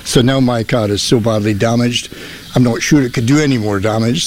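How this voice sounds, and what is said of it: Speaks with a regional accent. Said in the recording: “I love his accent.”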